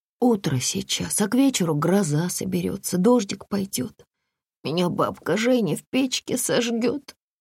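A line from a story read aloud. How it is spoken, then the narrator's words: Sudden hoarse voice. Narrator (Russian): вдруг сказал Саня хрипло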